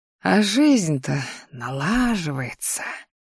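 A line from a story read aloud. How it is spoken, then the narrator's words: Pleased mutter under breath. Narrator (Russian): довольно буркнул мужчина себе под нос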